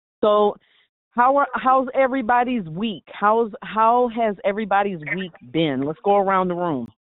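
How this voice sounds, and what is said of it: Voice with a slight cold. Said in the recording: “I have a little cold, so you'll hear me coughing.”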